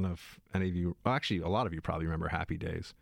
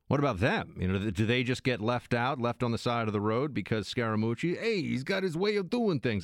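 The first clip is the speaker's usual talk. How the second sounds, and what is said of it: Impression sounding like the Fonz. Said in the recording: “My Scaramucci impression, it sounds kind of like I'm doing the Fonz.”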